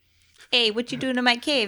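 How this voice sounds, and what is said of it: Put-on Canadian accent. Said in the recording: “You have a Canadian accent.”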